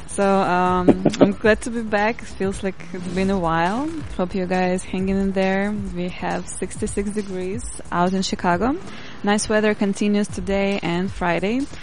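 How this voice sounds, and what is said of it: Noticeable accent. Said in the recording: “I'm a huge fan of ... accent”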